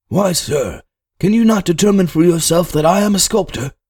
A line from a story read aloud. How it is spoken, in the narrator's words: Somewhat aggravated, as if I had insulted him, the young man exclaimed at once